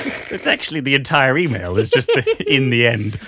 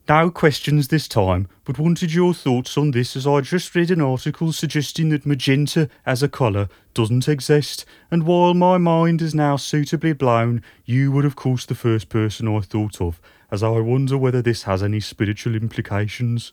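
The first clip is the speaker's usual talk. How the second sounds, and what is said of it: Put-on Birmingham accent. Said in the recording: “the longest sentence had to be done in a Birmingham accent”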